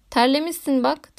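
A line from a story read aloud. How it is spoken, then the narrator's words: Plain. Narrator (Turkish): dedi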